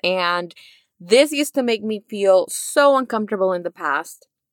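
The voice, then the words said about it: Spanish-influenced English accent. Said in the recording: “Spanish is my first language. And when I was learning English, you know, I picked up a very unique accent along the way. And so a lot of the things that I say, some words I can't really pronounce.”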